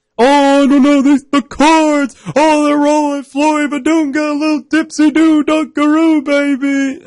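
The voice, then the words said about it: Dick Vitale impression. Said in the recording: “call the game in a Dick Vitale accent ... That's probably what he would do.”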